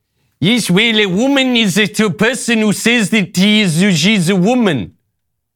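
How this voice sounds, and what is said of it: Imitated New Zealand accent. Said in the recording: “My New Zealand accent isn't great. It's not really great.”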